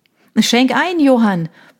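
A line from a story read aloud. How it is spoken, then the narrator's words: Shouted, man. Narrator (German): brüllte Michael, der Mann ihrer besten Freundin Konstanze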